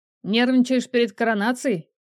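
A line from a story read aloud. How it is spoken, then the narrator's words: Chuckle. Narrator (Russian): хохотнул Арик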